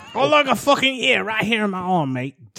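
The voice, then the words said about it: Put-on Australian accent. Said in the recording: “your Australian accent?”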